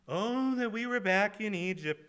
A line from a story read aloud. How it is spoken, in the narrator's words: they moaned